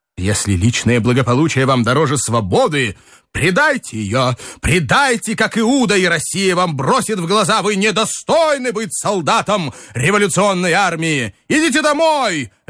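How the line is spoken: Sharp shout. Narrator (Russian): резко крикнул Николай Иванович

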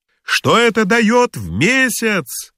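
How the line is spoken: Shouting after someone. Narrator (Russian): крикнул Филюрин вдогонку

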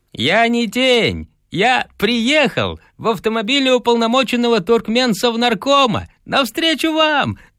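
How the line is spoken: Breathless, beaming shout. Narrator (Russian): захлебываясь и сия, кричал Панюкин

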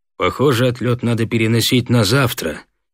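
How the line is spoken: Gloomy. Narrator (Russian): мрачно сказал Соколов

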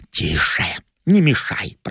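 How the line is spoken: Whisper. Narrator (Russian): прошептал

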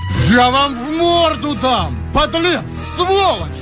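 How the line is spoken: High barking shout. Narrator (Russian): закричал Николаев высоким лающим голосом

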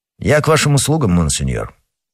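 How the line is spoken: Plain. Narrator (Russian): ответил Д'Артаньян

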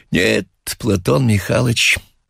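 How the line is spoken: Sighing. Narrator (Russian): сказал Хлобуев, вздохнувший

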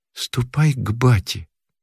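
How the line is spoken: Quiet reply. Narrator (Russian): тихо ответила Мотька

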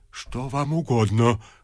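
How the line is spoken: Whisper. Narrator (Russian): прошептал отец Федор

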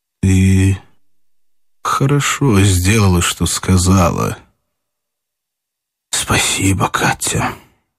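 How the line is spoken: Dull, muffled voice. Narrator (Russian): он проговорил глухо

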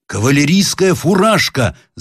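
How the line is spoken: Shouted. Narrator (Russian): закричал Сборский

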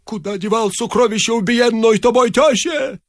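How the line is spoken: Hoarse shout. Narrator (Russian): закричал охрипшим голосом

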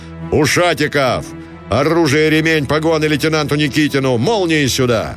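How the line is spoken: Booming powerful bass shout. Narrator (Russian): Загремел Гранатуров, прокричал вниз раскатистым мощным строевым басом

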